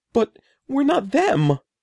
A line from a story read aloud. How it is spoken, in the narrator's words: wailed